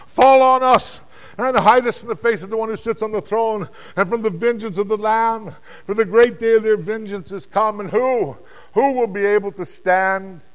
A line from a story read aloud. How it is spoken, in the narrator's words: they cried out